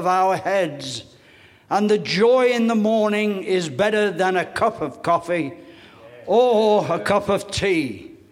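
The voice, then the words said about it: English accent. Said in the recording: “ex-Englishman. I am now Americanized ... My accent still has a lot to catch up on that”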